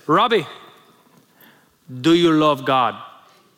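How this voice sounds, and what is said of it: Imitated strong accent, admittedly imperfect. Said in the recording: “He had an incredible accent. I will try to replicate it even though I can't do a good job.”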